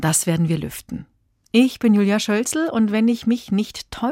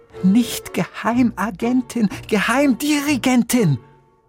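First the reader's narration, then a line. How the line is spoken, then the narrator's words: Lady calling out. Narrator (German): rief die Dame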